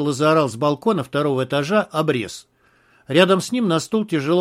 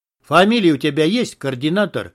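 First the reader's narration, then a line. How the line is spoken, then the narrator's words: Rude interruption. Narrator (Russian): грубо оборвал его подполковник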